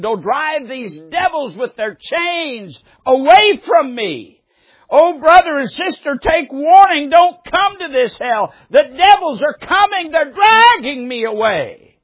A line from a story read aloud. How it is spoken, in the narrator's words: He took seriously ill and exclaimed